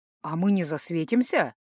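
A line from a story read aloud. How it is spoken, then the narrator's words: Calm question. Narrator (Russian): довольно спокойно поинтересовался Рыжий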